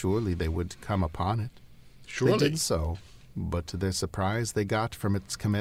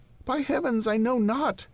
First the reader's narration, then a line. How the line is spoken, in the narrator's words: exclaimed Henry